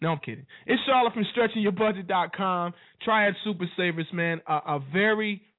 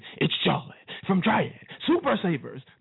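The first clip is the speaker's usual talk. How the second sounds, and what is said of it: Dramatic movie-trailer announcer voice. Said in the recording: “Let me get in my movie theater voice for a minute.”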